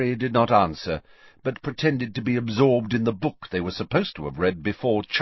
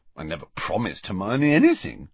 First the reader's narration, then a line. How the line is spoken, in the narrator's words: Ron mumbled